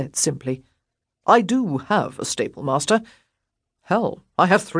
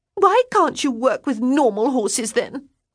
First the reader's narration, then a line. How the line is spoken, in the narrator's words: She cried